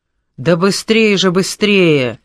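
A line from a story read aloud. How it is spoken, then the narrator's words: Strained shout. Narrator (Russian): надсадно кричал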